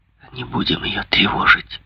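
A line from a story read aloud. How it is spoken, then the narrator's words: Whispered. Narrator (Russian): шепотом проговорила Ударда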